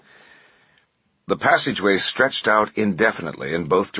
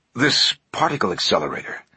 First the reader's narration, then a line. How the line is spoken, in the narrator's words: Langdon said quietly